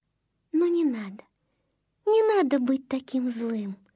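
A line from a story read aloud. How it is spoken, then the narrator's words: Gentle affectionate voice. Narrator (Russian): ласково заговорила она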